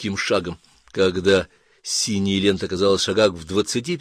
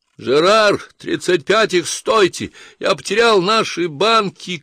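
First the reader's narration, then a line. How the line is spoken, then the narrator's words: Shout. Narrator (Russian): крикнул Ланселот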